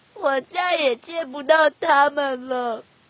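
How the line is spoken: Duck sobbing. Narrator (Chinese): 鸭子哭哭啼啼的说

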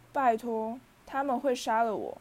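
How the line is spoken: Low deep voice. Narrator (Chinese): 哈利沉声说

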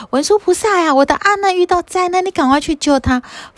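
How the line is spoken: Quiet, not shouted. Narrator (Chinese): 他并没有大声嚷嚷说

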